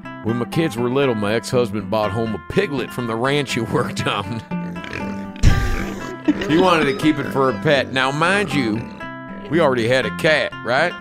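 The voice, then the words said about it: Put-on Southern accent. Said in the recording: “it's a Southern accent”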